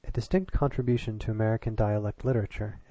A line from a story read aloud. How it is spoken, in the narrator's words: it said